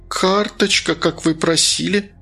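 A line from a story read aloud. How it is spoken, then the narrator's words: Trembling voice. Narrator (Russian): ответила она дрогнувшим голосом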